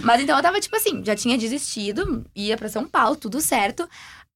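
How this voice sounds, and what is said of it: Strong regional Brazilian accent. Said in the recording (Portuguese): “dá pra ver pelo sotaque. ... bem forte.”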